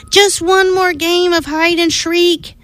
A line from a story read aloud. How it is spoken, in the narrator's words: he pleaded to Big Mama Mummy